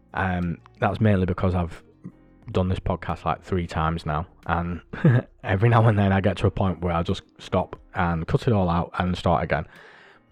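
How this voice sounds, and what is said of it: Tired, fading voice. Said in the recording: “you can probably hear my voice is going”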